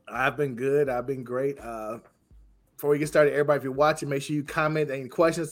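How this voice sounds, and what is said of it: Rough, sick-sounding voice. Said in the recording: “Excuse my voice. I'm still getting over a cold.”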